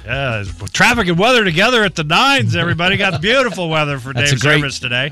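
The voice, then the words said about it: Loud, sing-song radio announcer voice. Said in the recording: “radio voice ... you were talking loud and sounding like you were out singing ... That's a great eulogy voice.”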